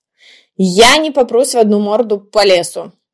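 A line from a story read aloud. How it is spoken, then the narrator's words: Sharp retort. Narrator (Russian): резко откнекнулся Женька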